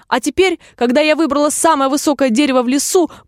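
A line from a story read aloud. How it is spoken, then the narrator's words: Shrill cry, dove. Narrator (Russian): пронзительно прокричала голубка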